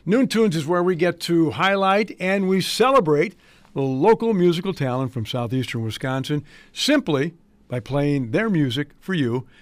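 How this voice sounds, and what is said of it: Slightly strained voice. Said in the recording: “apologize for my voice. It's a little strained because of some medical procedures”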